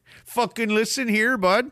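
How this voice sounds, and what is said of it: Put-on Saskatchewan Canadian accent. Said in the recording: “Tune up that accent ... that's a hard one to do. Saskatchewan's the hardest one.”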